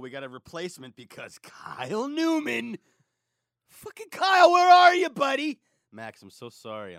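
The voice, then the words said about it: Yelling, frustrated. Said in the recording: “I'm yelling at you. I'm getting out a lot of frustration.”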